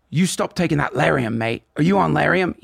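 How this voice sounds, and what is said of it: Put-on Australian accent. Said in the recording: “Sorry for my bad Australian accent. ... That's pretty good.”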